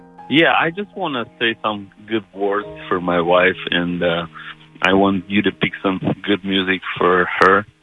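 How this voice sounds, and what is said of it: A delightful foreign accent. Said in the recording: “You have a delightful accent.”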